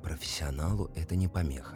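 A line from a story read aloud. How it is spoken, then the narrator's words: Whispered reply. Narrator (Russian): прошептал в ответ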